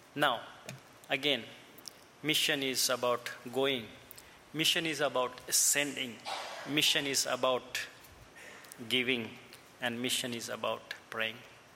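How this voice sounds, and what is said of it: Indian-accented English. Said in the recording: “my Indian accent and broken English ... I have Indian accent because I'm from India”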